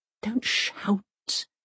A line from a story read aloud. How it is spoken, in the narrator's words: says Mum, in a composed voice